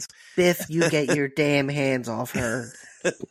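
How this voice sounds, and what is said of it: Imitates another person's voice. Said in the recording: “That's a really good Crispin Glover impression.”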